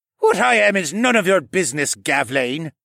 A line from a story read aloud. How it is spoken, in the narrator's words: the owlman suddenly snapped